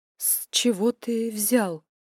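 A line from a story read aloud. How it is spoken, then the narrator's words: Hoarse question. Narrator (Russian): хрипло спросила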